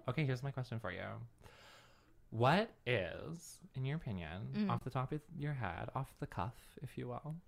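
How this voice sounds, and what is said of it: Creaky vocal fry voice. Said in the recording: “I don't know what happened with the vocal fry, but it's there now.”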